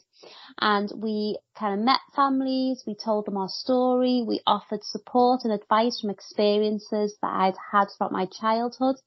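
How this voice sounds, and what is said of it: Liverpool accent. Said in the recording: “to come to Liverpool, where I live. You can probably tell by my accent”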